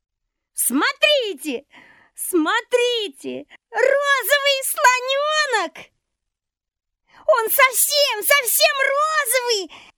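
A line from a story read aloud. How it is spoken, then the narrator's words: Cheerful laughing chatter. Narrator (Russian): Не умолкала она и весело смеялась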